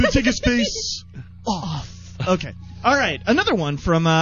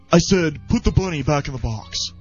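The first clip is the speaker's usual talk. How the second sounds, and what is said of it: Imitates another person's voice. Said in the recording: “This is my Nicolas Cage impersonation ... I like that impression.”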